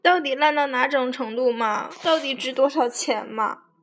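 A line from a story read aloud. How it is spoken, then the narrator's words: Hysterical crying. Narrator (Chinese): 他哭得像个精神病一样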